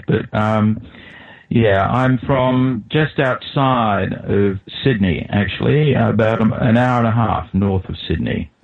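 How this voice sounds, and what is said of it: Australian accent. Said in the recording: “obviously, you're not English. Your accent is a little bit different to mine ... I'm from Australia, and I think that's probably quite self-evident from my accent.”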